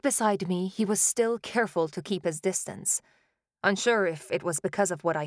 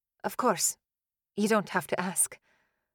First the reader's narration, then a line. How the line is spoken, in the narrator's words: mumbled